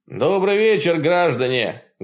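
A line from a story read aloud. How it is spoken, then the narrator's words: Loud opening. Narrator (Russian): громко начал я, потому что есть ситуации, когда лучше говорить первым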